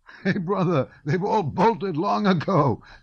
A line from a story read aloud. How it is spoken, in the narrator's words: said the soldier, laughing for some reason